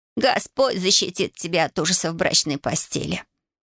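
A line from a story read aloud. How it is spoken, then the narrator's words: Hoarse rasp. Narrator (Russian): прохрипела Дуся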